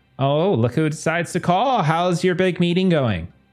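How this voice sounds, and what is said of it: Valley Girl voice. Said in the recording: “I'm in the Valley Girl voice. That's not right.”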